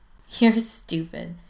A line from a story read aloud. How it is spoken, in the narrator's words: Spencer points out, still laughing